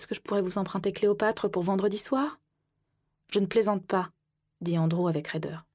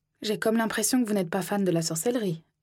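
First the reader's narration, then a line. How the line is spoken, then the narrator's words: Plain. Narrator (French): dit-elle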